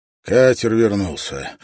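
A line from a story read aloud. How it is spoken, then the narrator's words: Weary. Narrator (Russian): устало сообщил ему капитан Орлов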